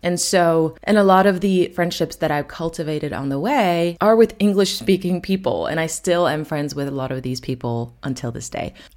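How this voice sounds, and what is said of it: American-sounding English accent. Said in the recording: “This is why I have the accent that I have. So if you're wondering why I pretend like I'm an American”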